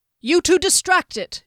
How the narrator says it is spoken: Derry cried

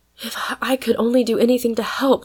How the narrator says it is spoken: cried Polly, oppressed with her own powerlessness

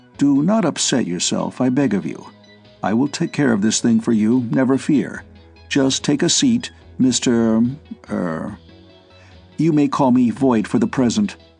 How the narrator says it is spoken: said the stranger in a more composed tone of voice

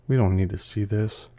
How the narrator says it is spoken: Enrique said quietly

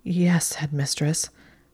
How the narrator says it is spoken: Hermione said in a wobbling voice

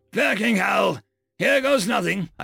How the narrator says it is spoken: I growled

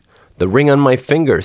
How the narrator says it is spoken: said she

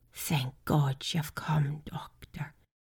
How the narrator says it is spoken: whispered

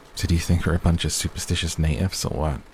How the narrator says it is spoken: He asked in a playful tone, but with a hint of worry

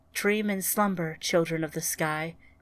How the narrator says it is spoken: whispered Ryan

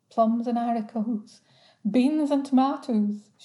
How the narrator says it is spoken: she intoned

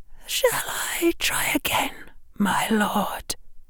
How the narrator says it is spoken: she whispered

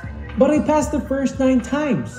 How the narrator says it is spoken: he cried

